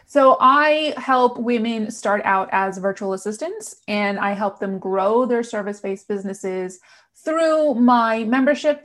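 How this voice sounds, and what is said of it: New York American accent. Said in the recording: “I can't get rid of this New York, American, whatever, transatlantic accent. It's here to stay”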